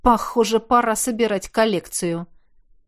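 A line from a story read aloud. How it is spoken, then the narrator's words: Quiet snort to himself. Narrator (Russian): хмыкнул про себя я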